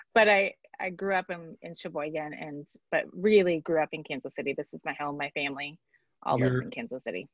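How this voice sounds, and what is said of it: Slight Wisconsin accent. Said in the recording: “you can hear my accent, Wisconsin. I don't know how to say Wisconsin without that long sound.”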